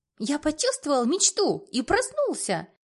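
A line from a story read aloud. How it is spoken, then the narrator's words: Cheerful, in ear. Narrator (Russian): Весело сообщает мне в ухо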